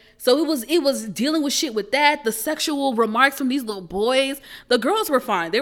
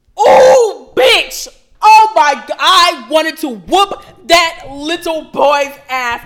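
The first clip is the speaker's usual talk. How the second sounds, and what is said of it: Screaming very loudly. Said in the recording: “I'm like having to back up from my microphone because my shit is like peaking. It's so fucking red. I'm screaming so loud.”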